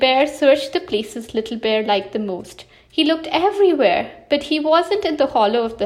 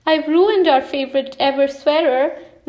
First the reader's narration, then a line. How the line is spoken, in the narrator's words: Little Bear cried